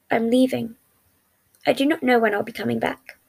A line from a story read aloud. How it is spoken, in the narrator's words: he said in a calm tone